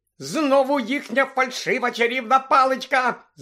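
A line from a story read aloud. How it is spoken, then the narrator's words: Shout. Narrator (Ukrainian): закричала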